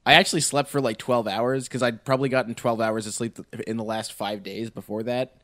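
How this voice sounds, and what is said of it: Sick-sounding voice. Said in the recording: “I'm sick, in case you can't tell.”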